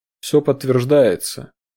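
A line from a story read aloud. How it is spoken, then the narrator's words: Gloomy report. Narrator (Russian): мрачно сообщил Дронго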